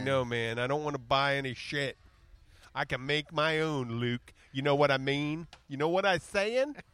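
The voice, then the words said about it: Poorly done put-on American accent. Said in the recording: “Your southern accent's pathetic... I was trying to do a city one... Oh, that was a city accent?... Hey, I'm doing an accent.”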